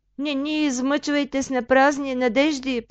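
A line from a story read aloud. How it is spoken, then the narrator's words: Moaning. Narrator (Bulgarian): простенала майката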